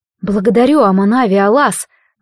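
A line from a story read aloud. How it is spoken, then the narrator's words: Tired exhale. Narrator (Russian): выдохнула она устало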